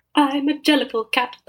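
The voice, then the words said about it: Imitates a musical theatre character. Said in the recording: “my impression of Cats the musical.”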